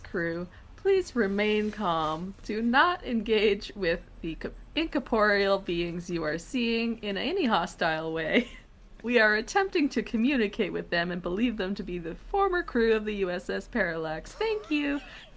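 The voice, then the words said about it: Polite customer service voice. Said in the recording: “That's my best customer service voice.”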